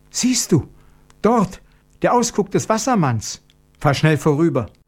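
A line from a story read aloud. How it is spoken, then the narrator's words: Cry of sudden fright. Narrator (German): rief sie in plötzlichem Schrecken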